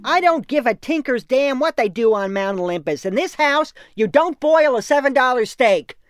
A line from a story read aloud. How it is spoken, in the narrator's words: my mother entered the room, shouting